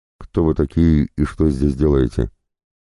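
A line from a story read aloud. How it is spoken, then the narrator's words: Prisoner trying to sound stern. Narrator (Russian): Стараясь, чтобы его голос прозвучал строго, спросил пленный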